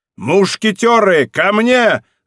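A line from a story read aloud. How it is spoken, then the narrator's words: Shouting. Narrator (Russian): закричал Д'Артаньян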